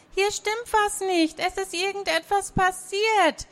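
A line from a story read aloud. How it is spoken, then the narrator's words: Excited answer. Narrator (German): antwortete Jackie aufgeregt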